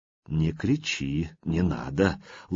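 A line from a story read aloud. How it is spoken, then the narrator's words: Tender. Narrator (Russian): ласково произнес Владимир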